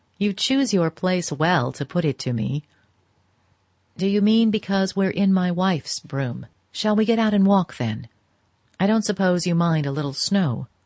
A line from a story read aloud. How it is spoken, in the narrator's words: She laughed again, more gently